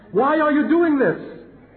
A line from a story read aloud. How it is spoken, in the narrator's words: cried out in terror and panic